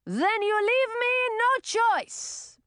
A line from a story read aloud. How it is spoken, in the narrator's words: Prince Rodolfo shouted back